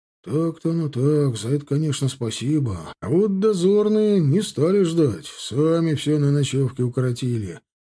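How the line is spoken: Grumbling. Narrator (Russian): проворчал Лыков

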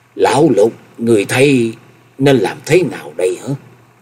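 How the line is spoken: Loud, trembling. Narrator (Vietnamese): Chân Tư Nhân lớn giọng run run nói

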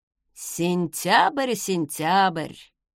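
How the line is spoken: Mocking tongue click. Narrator (Russian): Торстен насмешливо подцокал языком

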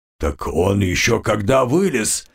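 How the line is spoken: Chuckling bone king. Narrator (Russian): хохотнул костяной царь

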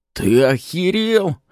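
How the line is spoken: Roaring. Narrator (Russian): взревел второй

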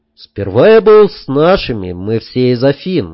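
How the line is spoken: Sighing. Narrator (Russian): опять вздохнул

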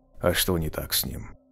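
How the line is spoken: Deep bass, huge man. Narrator (Russian): прибасил невероятных габаритов егерь Гена Столяров

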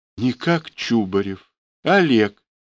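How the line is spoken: Uncertain. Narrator (Russian): сказал неуверенно

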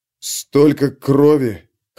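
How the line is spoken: Hoarse. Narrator (Russian): хрипло выговорил

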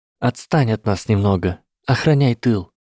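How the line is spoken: Quiet mutter, lips barely moving. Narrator (Russian): Тихонько пробормотала Эмилина, почти не шевеля губами

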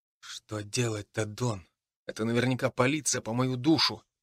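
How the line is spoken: Whispered. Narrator (Russian): прошептал я

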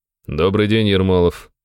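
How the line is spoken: Snorting. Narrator (Russian): хмыкнул он

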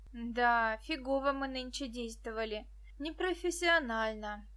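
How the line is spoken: Sighing. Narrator (Russian): вздохнул Петька

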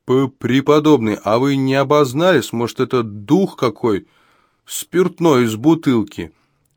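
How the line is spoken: Shouting out. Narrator (Russian): выкрикнул Горацио Ливер

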